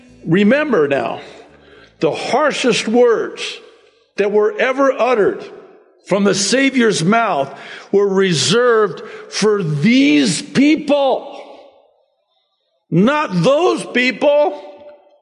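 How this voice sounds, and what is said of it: Yelling, loud emphatic preaching. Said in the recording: “I'm yelling.”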